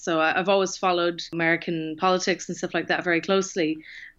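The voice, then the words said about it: Irish accent. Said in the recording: “my accent is Irish”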